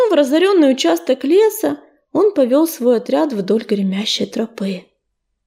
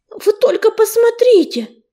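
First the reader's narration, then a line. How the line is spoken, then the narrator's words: Frightened breaking exclamation. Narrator (Russian): срывающимся от страха голосом воскликнул Крутобок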